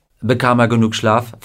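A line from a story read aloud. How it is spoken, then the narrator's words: Plain. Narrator (German): fragte Gardner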